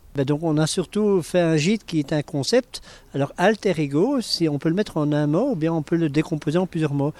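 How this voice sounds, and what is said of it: Belgian French accent. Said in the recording (French): “avec mon accent, vous avez reconnu que je viens un peu de Belgique”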